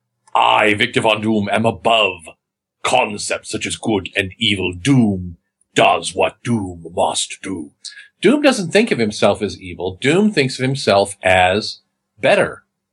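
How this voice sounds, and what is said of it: Victor Von Doom with slight European accent. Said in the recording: “I am now going to first inhabit the mind of Victor Von Doom ... Victor Von Doom is from Europe and he has a slight accent”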